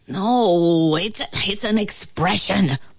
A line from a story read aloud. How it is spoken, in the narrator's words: moaned the ant